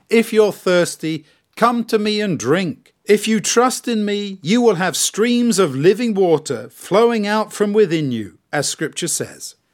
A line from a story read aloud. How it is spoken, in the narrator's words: Jesus shouted out in a loud voice